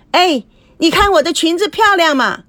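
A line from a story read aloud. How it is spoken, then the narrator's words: Loud calling. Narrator (Chinese): 大声叫着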